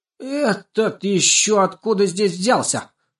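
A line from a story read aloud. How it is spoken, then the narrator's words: Hysterical screaming. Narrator (Russian): завопила Жирола в истерике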